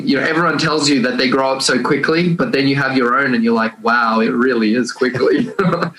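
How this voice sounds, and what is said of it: Australian accent. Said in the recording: “I was born and raised the only one in my family in Australia, which is where the accent comes in.”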